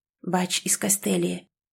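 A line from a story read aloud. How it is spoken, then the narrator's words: Whisper. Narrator (Russian): прошептал мсье Крейг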